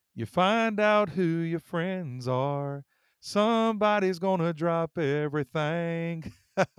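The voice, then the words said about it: Imitates a country singer singing. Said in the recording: “my best impersonation ... he sang these words”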